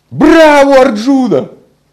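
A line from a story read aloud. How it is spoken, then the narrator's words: Crowd shouting. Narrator (Russian): люди кричали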